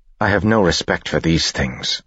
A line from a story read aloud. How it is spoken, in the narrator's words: she said